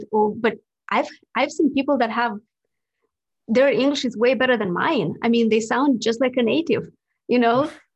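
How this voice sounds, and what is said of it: Non-native English accent. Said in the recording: “you can tell I have an accent as well. English is not my native language”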